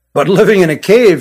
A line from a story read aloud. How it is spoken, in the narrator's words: chuckled